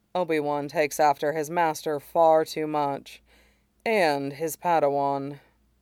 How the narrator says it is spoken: Mace gives him a look that's faintly pained and says

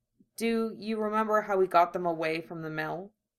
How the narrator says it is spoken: he asks

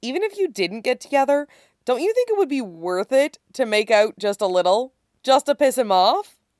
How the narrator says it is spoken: Stiles asks brightly

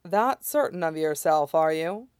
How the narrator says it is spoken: Amaya said dryly

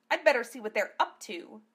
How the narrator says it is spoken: she muttered to no one in particular

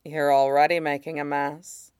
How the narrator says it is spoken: Sid murmurs in his ear

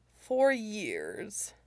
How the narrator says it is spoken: Mushi said dryly

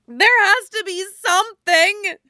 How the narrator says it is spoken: Harris screams

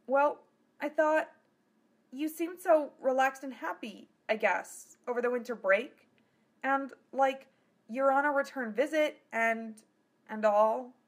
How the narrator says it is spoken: Philia said uneasily

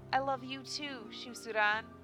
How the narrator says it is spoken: she replied

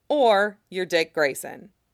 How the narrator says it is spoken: Theo says flatly

